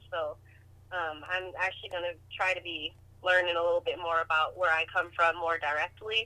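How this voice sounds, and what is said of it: Slight islander accent. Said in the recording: “you definitely have this, like, kind of island accent, islander accent a little bit. At least from the phone.”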